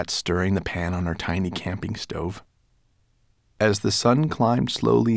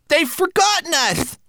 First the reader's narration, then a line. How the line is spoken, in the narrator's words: wailed Twig-like